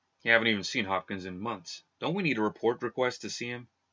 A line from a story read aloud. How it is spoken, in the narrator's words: Another guard, hidden from his view behind the checkpoint station, said quietly